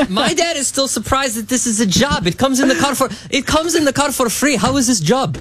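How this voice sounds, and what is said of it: Usual voice. Nothing is said of it.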